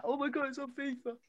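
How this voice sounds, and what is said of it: Imitates another person's voice. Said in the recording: “That was a good impression of me there, mate. Class.”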